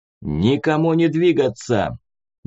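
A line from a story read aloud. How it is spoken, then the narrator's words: Thunderous commanding voice. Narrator (Russian): громоподобным голосом приказал охотник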